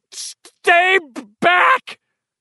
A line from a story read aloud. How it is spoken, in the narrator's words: Bill shouted